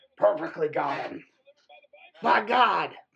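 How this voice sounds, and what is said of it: Imitates a wrestling commentator's voice. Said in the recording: “That's my Jim Ross... that is the perfect Jim Ross impersonation.”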